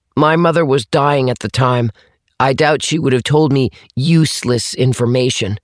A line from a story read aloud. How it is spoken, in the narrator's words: Atticus said firmly